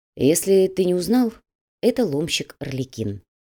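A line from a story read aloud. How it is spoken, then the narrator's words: Even, level voice. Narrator (Russian): ровным голосом поведал Макс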